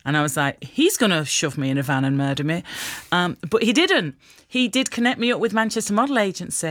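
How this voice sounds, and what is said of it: Usual voice. Nothing is said of it.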